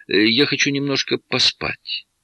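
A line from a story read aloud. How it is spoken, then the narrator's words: Declaring. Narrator (Russian): та заявила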